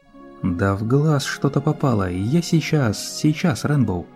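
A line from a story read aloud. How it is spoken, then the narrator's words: Hesitant lying. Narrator (Russian): неуверенно врала волшебница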